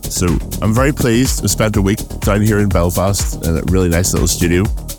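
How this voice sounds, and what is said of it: Northern Irish accent. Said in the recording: “I have a Northern Irish accent”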